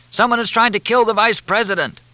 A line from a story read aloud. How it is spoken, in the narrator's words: Even over the sound of the helicopter, Jake Williams shout